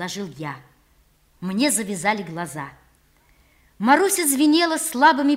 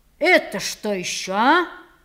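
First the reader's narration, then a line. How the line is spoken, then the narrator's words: Stern question. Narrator (Russian): строго спрашивал он меня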